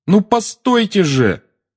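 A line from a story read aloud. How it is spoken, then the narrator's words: Shouted after someone. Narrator (Russian): крикнул Гарри ей вслед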